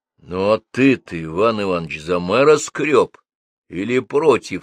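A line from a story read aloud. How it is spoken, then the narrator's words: Plain question. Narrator (Russian): спросил бабство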